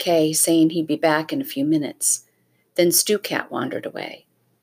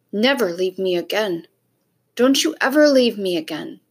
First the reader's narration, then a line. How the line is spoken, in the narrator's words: I said harshly